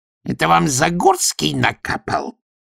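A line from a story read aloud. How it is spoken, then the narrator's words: Sudden vicious voice over phone. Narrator (Russian): неожиданно злобно спросила трубка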